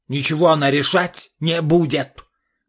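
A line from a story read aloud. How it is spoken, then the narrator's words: Father's roar. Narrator (Russian): взревел отец юной балерины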